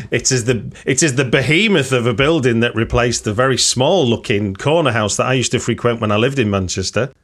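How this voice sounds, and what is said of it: Manchester English accent. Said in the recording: “people who might recognise my accent ... it's from where I grew up”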